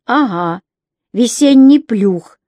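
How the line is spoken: Laughing exclamation. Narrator (Russian): воскликнул он со смехом

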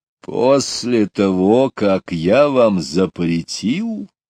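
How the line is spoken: Father's even more frightening voice. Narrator (Russian): еще более страшным голосом произнес папа

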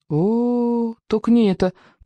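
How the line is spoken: Groaning. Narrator (Russian): простонал Икинг

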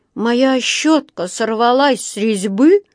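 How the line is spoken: Sorrowful exclamation. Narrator (Russian): горестно воскликнул Паддингтон, обращаясь в пустоту

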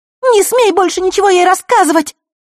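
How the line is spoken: Hysterical girl shouting. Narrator (Russian): истерично выкрикнула девушка

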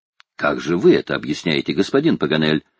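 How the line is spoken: Plain. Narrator (Russian): спросила леди Элен

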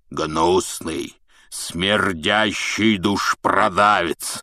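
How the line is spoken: Loud roar across bar. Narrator (Russian): прорычал Хагрид на весь бар

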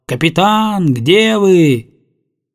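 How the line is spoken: Long shouting. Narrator (Russian): Давно уже Летика кричал

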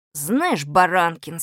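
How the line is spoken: Unpleasant voice. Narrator (Russian): сказал Малинин каким-то противным голосом

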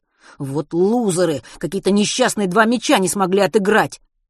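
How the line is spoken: Annoyed exclamation. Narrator (Russian): С досадой воскликнул Матвей

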